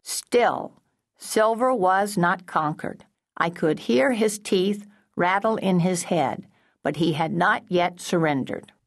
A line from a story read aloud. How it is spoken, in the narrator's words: read out loud in a mechanical voice